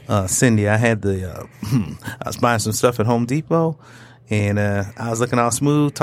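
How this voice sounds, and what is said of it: Put-on sexy, smooth voice. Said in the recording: “put on my sexy voice”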